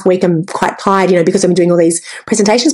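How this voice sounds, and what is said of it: Raspy, strained voice. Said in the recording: “My voice is raspy and it's strained.”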